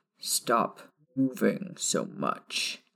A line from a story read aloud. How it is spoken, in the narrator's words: Sirius snarled from behind her